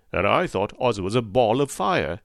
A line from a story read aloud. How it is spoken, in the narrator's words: exclaimed the lion